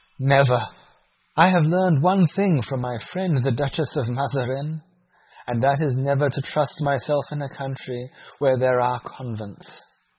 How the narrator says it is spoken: she cried

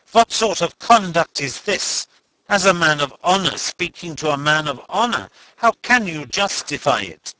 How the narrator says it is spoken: he exclaimed indignantly

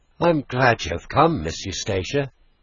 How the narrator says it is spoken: he said with a sigh of relief

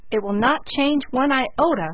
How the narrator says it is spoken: cried Philip

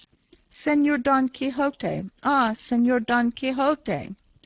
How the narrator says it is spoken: Sancho he called to him in a weak and doleful voice

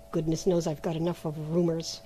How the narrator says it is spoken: he muttered to himself

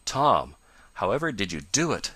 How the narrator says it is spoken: gasped Ned at length

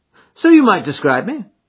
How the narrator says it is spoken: said Holmes cheerfully

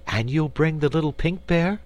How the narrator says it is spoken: asked Dorothy eagerly

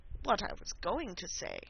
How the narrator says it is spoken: said the Dodo, in an offended tone

